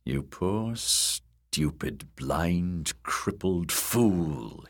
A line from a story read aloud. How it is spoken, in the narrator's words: he'd snarled, in a voice thick with malice